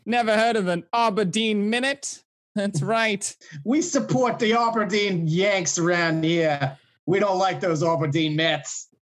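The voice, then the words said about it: Put-on New York accent. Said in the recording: “a New York accent”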